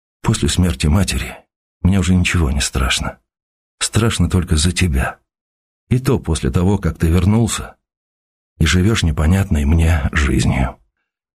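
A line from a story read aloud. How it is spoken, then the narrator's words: Father, sad and low. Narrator (Russian): Отец сожалеюще печально сказал вполголоса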